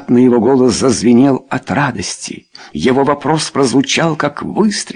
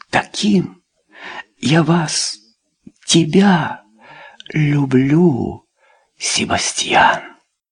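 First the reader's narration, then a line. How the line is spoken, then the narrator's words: Barely audible whisper. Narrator (Russian): И очень тихо, так тихо, что он едва расслышал, Люсинда прошептала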